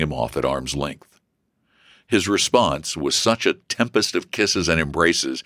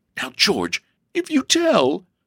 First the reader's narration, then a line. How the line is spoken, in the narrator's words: sobbed Elsie